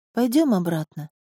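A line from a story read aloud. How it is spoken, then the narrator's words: Quiet request, young woman. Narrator (Russian): тихо попросила девушка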